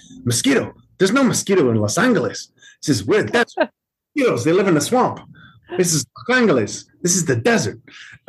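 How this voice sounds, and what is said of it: Imitates another person's accent. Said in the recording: “Tony Shalhoub is doing this accent ... his way of talking is so funny”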